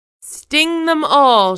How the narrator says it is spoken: she shouted

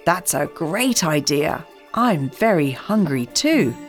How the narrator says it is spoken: said Hansel

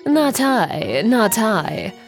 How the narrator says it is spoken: purrs the Sleepy Cat

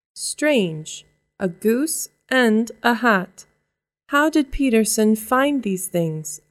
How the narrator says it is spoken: I asked

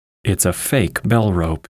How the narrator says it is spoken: he said

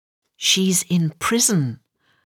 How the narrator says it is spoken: whispered the rabbit to Alice's ear

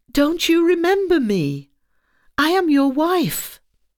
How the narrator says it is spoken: she cried

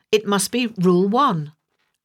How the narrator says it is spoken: Alice shouted

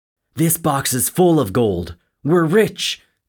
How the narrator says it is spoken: screamed Joe

